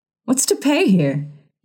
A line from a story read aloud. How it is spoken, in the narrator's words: he cried